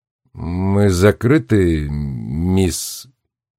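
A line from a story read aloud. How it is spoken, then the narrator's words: Quiet repetition. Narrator (Russian): тихо повторил бармен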